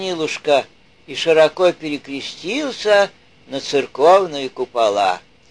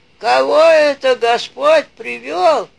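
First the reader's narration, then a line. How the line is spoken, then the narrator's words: Grumbling. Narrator (Russian): проворчал он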